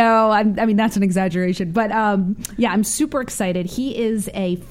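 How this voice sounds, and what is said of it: Usual voice. Nothing is said of it.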